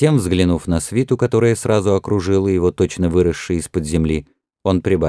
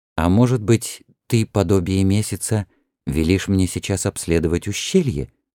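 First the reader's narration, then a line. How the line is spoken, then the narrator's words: Quiet question. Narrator (Russian): тихо спросил офицер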